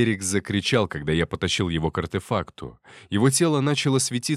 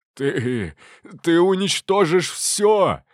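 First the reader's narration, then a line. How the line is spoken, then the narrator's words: Hoarse, pained wheeze. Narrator (Russian): Альберик хрипел, его лицо исказилось от боли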